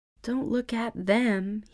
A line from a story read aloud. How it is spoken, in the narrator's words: he mumbled